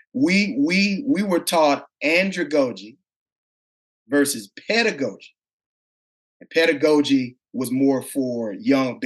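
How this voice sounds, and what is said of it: Mississippi country twang. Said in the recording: “I have a country twang ... from Mississippi”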